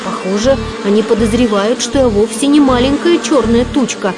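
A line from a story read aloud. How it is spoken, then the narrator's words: Cried out. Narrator (Russian): вскрикнул он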